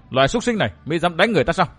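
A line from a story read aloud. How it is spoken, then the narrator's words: Sharp shout. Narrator (Vietnamese): Nàng vừa quát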